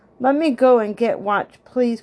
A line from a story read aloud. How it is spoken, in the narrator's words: cried Benny